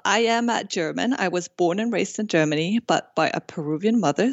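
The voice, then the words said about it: Unique, beautiful foreign accent. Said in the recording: “I love your accent, too. It's just such a unique, beautiful accent ... you have a great accent”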